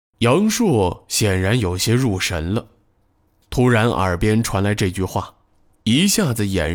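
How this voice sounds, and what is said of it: Usual voice. Nothing is said of it.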